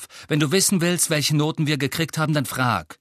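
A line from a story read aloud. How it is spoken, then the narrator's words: Sharp. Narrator (German): sagte Ron scharf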